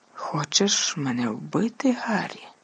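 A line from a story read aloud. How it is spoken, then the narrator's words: Whispered. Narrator (Ukrainian): прошепотів він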